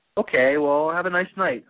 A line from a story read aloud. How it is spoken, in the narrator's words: I said